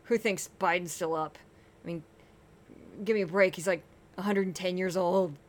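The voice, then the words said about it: Clenched imitation of another person's voice. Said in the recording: “my Laura Ingram impression ... It kind of hurts to do that because she's very clenched, very clenched.”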